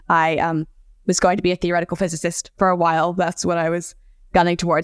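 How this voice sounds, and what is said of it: Accent shaped by living abroad. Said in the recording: “You might gather from my accent that I have lived overseas”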